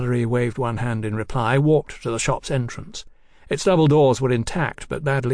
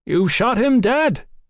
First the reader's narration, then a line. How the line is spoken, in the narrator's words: he shouted upward